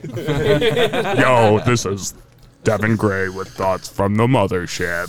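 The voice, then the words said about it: Imitates another person's voice. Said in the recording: “That was pretty good, actually... imitation is the highest form of flattery”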